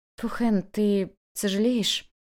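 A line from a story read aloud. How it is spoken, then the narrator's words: Trembling question. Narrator (Russian): Дрожащим голосом она спросила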